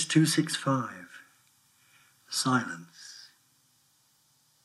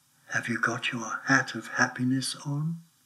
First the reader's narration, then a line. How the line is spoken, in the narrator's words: a voice in the forest said softly